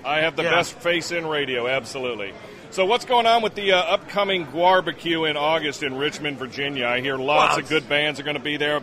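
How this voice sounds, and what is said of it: Pleasant radio-style voice. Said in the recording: “He's got a great radio voice. He's got a pretty good radio voice.”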